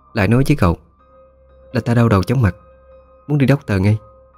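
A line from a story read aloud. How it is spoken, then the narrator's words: Sighing softly. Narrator (Vietnamese): khẽ thở dài một tiếng, rồi nói với con hầu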